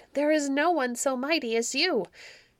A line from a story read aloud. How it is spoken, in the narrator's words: they cried